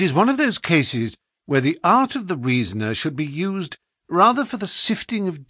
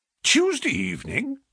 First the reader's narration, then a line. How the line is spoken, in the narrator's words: I exclaimed